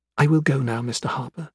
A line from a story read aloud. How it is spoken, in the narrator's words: announced softly